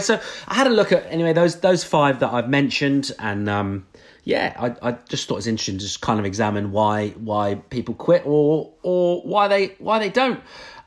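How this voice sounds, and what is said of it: Beautiful accent. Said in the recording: “Isn't that a beautiful accent ... It's a great accent.”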